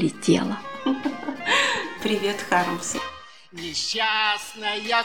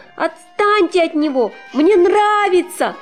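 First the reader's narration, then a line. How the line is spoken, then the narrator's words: Shout. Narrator (Russian): вдруг кошка крикнула нам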